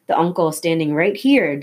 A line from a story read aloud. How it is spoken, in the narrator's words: Dimitri said, chuckling